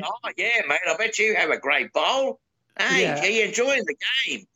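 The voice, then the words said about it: Convincing put-on Australian accent. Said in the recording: “I love your Australian accent, by the way. You are pretty damn good at that.”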